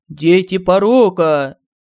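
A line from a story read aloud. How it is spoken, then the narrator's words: Roar. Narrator (Russian): взревел Семен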